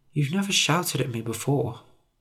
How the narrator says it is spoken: I said quietly

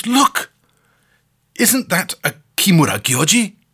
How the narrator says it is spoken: the American exclaims

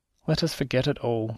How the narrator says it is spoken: said I, timidly

